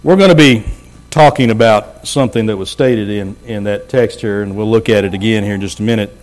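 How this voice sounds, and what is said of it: Strained, lower-pitched voice. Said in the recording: “I feel like I'm starting to lose my voice ... I already feel like I'm talking lower than what I normally do”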